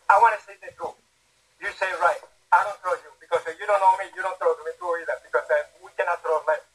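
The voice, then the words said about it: Cuban Spanish accent. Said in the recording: “you sound just like a Cuban ... He still sounds like he got off the boat.”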